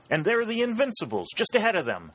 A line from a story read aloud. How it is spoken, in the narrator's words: exclaimed Dalton